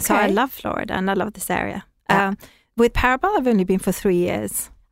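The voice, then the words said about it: Swedish-English blended accent. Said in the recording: “fantastic accent ... it is so adorable ... I'm Swedish, actually, originally, but I've spent a lot of time in England, so I suppose I took the English accent ... It's got a little mesh going on of the two.”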